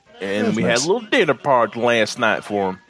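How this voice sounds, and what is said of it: Exaggerated put-on country-music accent. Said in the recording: “I don't know why you're explaining it in that accent ... Because of that country music he's been listening to ... Is this what ... thinks country music sounds like? ... It's like if ... asked Borat to explain what country music sounded like.”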